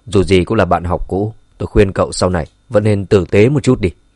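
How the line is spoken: Cold voice. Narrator (Vietnamese): Dương Chấn lạnh lùng nói

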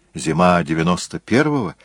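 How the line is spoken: Plain. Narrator (Russian): спросил Джессон

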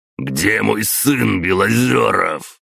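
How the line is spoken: Barked. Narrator (Russian): рявкнул он

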